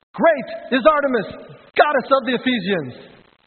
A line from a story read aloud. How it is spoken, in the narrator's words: This is what they shouted for hours on end